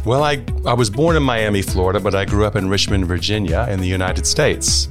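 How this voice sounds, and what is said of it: American accent, not British. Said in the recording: “people will immediately hear that that accent isn't quite Oxford”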